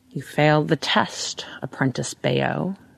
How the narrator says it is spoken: he says, in an odd, throaty voice, as though he were underwater

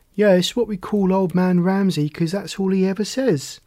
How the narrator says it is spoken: Charlie laughed

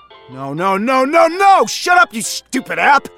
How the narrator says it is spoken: he yelled at the program

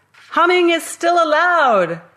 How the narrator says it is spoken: I shouted

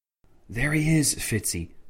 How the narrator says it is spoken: whispered Alistair Tancred

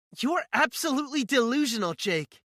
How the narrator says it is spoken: she yells at me

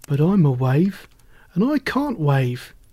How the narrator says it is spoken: sighed the little wave

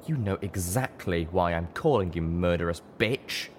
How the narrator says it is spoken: Blackseas spat

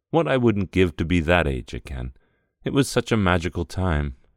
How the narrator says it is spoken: she sighed

